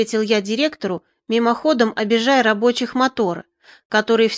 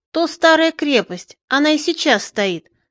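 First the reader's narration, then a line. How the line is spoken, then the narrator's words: Joyful. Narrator (Russian): сказал радостно Бобырь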